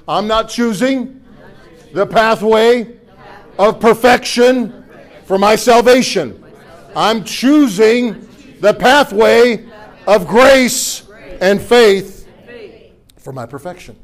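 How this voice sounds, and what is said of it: Slow, deliberate speech. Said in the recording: “say it slower”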